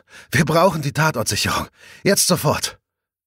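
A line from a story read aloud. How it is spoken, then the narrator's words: Breathless panting. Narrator (German): keucht sie ein wenig atemlos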